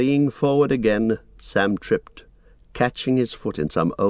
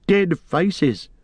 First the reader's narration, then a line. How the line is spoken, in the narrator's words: Gollum laughed